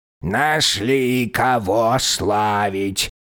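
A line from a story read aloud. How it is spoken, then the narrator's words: Grumbling old man. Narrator (Russian): проворчал старый жрец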